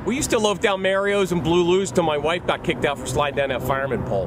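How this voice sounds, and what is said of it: Pittsburgh accent. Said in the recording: “the ugliest accent in America ... It's Pittsburgh ... the accent of the native Pittsburgher”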